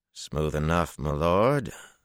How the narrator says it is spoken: Harnin replied in a cautious tone

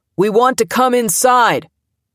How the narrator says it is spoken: Someone, Ron Kovic, yelled through a bullhorn

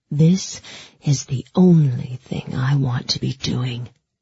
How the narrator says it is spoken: he growled, and I could hear the bitterness and desire all tangled up in his voice

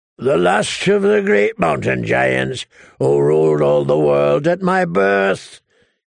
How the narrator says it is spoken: he bellowed back through the snow

